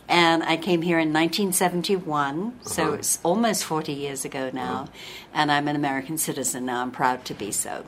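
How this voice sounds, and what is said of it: English accent. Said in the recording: “they're listening to my voice and they're saying, she's not from southern Utah... I'm originally from England... that's not a southern Utah accent”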